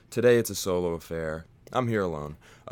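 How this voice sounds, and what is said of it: Put-on fake voice. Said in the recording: “put on this fake voice”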